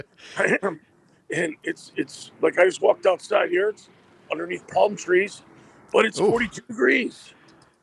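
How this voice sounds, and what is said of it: Hoarse, fading voice. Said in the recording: “I'm losing my voice from talking to so many people.”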